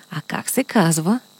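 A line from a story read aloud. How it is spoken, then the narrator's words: Quiet whisper in ear. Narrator (Bulgarian): тихо го попитаха на ухо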